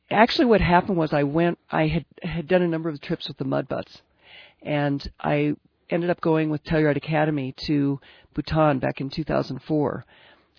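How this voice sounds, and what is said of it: Hoarse, croaky voice. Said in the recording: “apologize for my voice. I have the Telluride crud a little bit ... I sound like a frog.”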